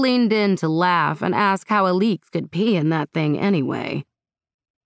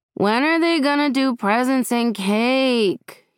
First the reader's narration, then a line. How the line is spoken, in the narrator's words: whined